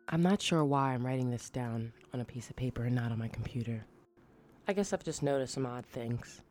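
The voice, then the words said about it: Scary storytelling voice. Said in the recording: “I'm going to try to tell it in my scariest voice.”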